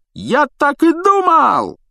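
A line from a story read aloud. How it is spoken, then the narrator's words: Joyful yell. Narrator (Russian): радостно завопил Стэн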